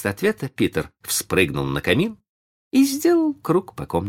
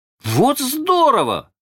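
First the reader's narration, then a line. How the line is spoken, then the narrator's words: Two voices shouting together. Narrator (Russian): закричали Майкл и Джон в один голос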